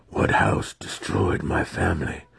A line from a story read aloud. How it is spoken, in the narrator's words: Alton growled